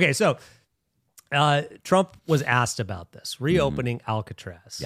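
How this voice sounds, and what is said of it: Usual voice. Nothing is said of it.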